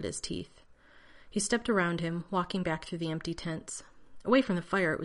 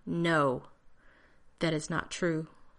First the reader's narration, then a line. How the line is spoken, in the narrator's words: John said tightly